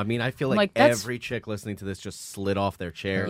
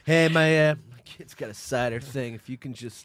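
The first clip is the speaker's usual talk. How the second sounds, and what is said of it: Donald Trump impression. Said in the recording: “Was that a Trump impression?”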